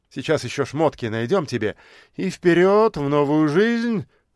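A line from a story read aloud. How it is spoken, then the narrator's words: Laughing. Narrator (Russian): рассмеялся все тот же болтун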